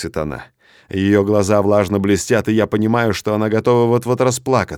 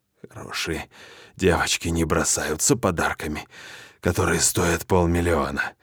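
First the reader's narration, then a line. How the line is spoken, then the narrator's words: Hoarse half-whisper. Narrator (Russian): произношу хриплым полушепотом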